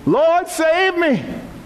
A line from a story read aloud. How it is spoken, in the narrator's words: beginning to sink, he cried out saying